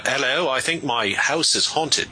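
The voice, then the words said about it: Bad put-on British accent. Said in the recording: “that's the worst British accent you'll ever hear ... my lousy British accent”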